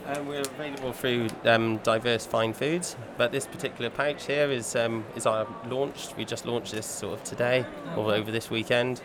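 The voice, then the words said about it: Slight southwestern English twang. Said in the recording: “I thought I could take that slight southwestern accent. ... A small twang. ... Small twang.”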